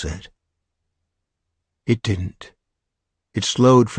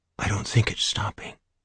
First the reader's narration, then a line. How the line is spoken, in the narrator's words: Sally Ann leaned over their son and whispered to Phil